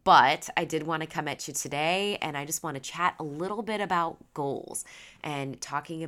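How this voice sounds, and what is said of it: Stuffy, congested voice. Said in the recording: “I sound a little stuffy, ... getting sick”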